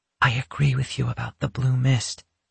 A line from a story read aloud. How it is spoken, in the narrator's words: she whispered